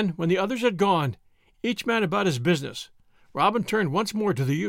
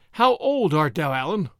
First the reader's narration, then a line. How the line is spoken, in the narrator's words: said Robin